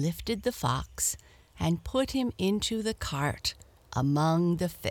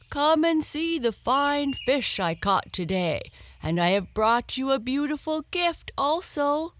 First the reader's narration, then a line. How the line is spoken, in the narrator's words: the old man … he called out to his wife